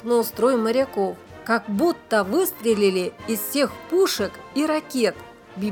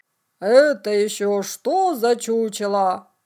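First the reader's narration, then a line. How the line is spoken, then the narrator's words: Stern question. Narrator (Russian): строго спросил мудрый адмирал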